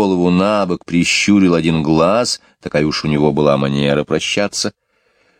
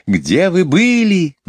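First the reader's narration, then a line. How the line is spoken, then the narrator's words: Children shouting over each other. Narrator (Russian): наперебой закричали дети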